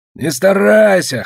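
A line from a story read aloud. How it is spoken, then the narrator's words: Snorting soldier. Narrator (Russian): хмыкнул капрал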